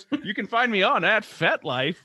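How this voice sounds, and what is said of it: Radio announcer voice. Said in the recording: “in my radio announcer voice?”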